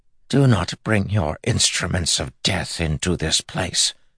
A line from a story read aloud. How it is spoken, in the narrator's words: Grandmother hissed